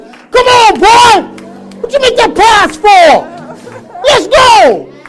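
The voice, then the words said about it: Yelling at a television. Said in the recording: “I'm yelling at the television”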